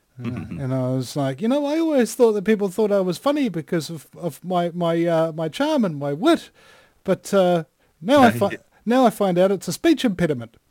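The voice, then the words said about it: New Zealand accent. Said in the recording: “He's got a funny accent... it's your Kiwi accent. People love it.”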